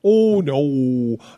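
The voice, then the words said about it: Deep Pennsylvania accent, Minnesota-like O's. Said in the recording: “the really deep Pennsylvania accent, ... almost like Minnesota ... thick, ... With the O's.”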